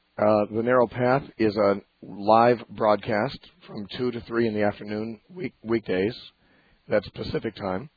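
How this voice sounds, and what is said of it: Weak voice, speaking lower than usual. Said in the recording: “my voice, as you can tell, is still cutting out a little bit ... recovering from laryngitis ... on the edge of just cutting out ... in an unnatural voice ... talk a little lower than I normally do”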